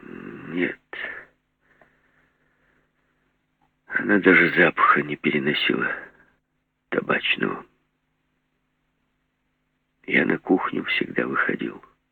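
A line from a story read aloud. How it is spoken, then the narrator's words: Puzzled, glum. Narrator (Russian): Груздев не скрывая недоумения, сказал уныло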